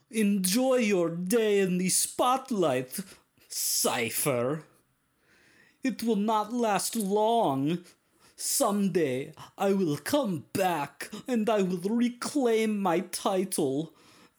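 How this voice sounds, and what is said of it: Put-on muddled German-like accent. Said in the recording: “My accent is getting more confusing the longer I talk. ... You and your space German something other something”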